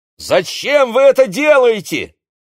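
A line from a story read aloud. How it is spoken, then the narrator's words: Shouting in the dark. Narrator (Russian): крикнул в темноте Игорь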